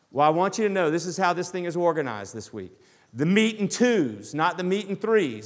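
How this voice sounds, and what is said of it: Southern US accent. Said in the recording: “I grew up in the South. I would love to disguise it sometimes, but you guys know from my accent, I can't disguise it at all.”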